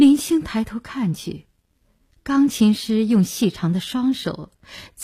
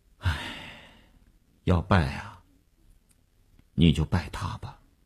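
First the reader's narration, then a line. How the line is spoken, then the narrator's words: Helpless sigh. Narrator (Chinese): 那个钢琴师一声无奈的叹息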